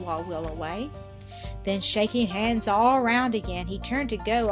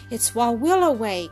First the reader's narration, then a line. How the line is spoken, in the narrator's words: cried one